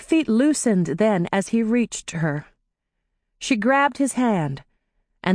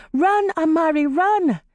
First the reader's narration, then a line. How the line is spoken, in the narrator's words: screaming